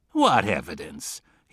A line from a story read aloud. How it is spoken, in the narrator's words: he said, scoffing